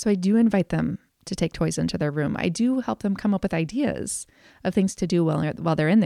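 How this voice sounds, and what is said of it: Usual voice. Nothing is said of it.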